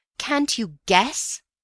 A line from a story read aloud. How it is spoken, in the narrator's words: I cried